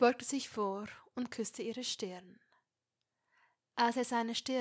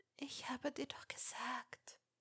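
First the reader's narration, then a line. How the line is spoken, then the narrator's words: Whispered. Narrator (German): wisperte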